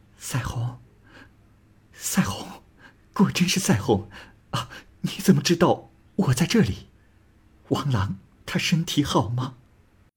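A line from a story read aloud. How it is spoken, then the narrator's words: Sobbing, weeping. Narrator (Chinese): 说着就呜咽着哭泣起来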